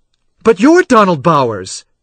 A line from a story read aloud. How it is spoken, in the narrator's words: She exclaimed